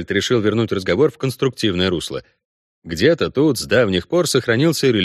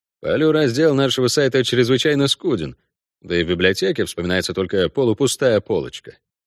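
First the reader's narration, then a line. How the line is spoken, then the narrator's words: Dry remark. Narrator (Russian): сухо заметил Кайон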